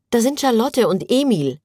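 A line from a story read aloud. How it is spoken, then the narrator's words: Called out. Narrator (German): rief Clara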